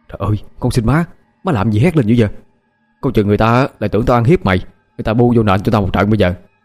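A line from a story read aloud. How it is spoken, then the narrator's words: Panicked hushed pleading. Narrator (Vietnamese): Mình hốt hoảng, nhỏ giọng năn nỉ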